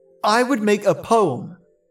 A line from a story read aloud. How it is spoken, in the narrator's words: Fune cried